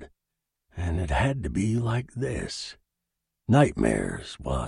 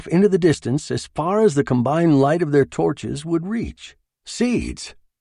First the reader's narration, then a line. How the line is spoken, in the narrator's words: Wass exclaimed, his faceplate pressed against the glass